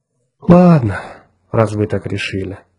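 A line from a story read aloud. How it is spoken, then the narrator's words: Sighing. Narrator (Russian): вздохнул Джонни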